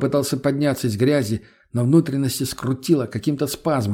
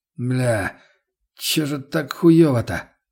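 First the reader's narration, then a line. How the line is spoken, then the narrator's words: Groaning. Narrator (Russian): простонал я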